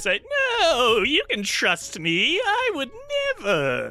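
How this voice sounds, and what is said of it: Untrustworthy-sounding worm creature voice. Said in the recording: “In my worm voice ... That's not a trustworthy voice.”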